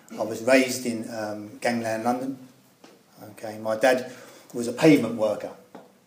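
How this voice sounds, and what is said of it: East End London accent. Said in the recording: “my accent that I come from the East End of London”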